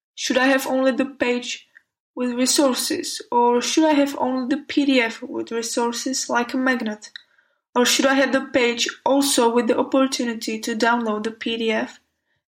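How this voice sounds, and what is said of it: Speaks with a beautiful accent. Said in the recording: “love your accent. It's beautiful.”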